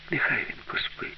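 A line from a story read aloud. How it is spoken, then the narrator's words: Whisper. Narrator (Ukrainian): прошепотіла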